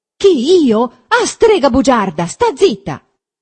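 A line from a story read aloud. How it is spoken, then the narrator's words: Shouted. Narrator (Italian): gridò Renzo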